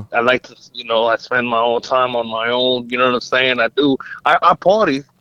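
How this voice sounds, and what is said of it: New York accent. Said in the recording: “in New York, I'm like a regular guy ... they don't know this accent”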